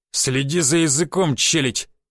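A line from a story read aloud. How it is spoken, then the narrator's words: Hissed through teeth, burly man. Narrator (Russian): процедил ему здоровый охранник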